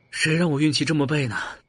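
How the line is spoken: Sighing. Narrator (Chinese): 阿燕也叹了口气

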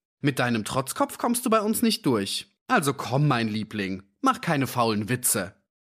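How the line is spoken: Called out. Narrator (German): rief

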